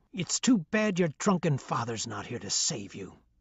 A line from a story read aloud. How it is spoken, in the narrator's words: she hissed